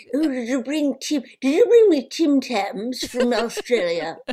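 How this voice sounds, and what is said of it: Trembly old English lady accent. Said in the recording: “The only English accent I do ... I call that trembly old lady voice ... Maybe a home county's grandmother.”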